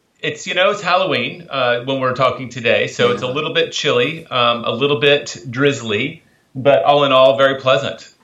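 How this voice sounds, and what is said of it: Mild American Southern accent. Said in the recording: “a very exotic, a very mellifluous accent ... a little bit of a southern accent in there ... It's not the drawly sort of American southern accent, but it's very pleasant”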